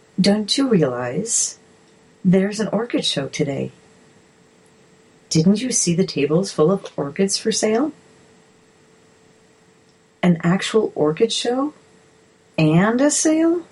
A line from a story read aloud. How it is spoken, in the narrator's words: kindly said